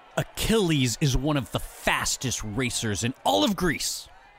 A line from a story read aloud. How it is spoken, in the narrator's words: Zeno bellowed